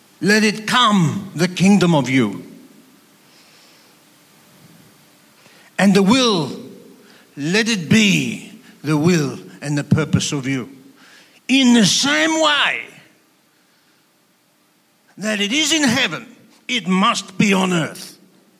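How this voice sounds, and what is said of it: Put-on Greek accent, passionate delivery. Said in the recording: “I'm imitating Zorba the Greek.”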